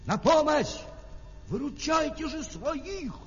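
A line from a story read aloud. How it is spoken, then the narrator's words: Shouted. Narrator (Russian): крикнул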